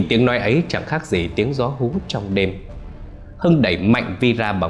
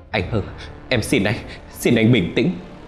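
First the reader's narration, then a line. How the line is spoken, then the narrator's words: Tearful trembling voice. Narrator (Vietnamese): Vì khóc lóc, giọng run rẩy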